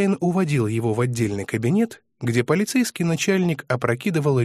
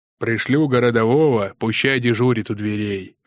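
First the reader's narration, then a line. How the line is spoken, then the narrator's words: Friendly bass turning stern. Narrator (Russian): басил вполне дружелюбно, но спохватывался и раскатывал по залу с прежней строгостью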